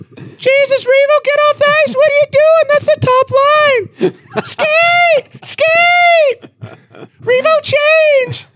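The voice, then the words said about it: Ken Hitchcock impression, shouting coach. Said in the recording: “your Ken Hitchcock impression”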